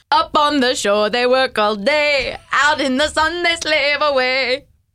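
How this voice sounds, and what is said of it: Singing in a put-on Jamaican accent. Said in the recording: “I'm going to need to hear your best under the sea in a Jamaican accent.”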